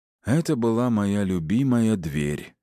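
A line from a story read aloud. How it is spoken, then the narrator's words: Heavy sigh. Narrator (Russian): тяжело вздохнул Аид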